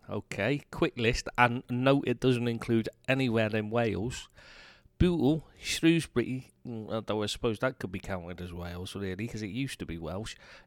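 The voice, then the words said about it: Partly Scouse English accent. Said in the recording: “you have a half Scouse accent”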